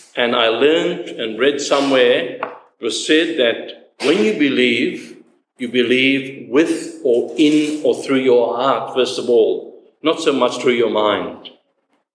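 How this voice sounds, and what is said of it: Speaks with a noticeable accent. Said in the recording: “if my accent gets in the way”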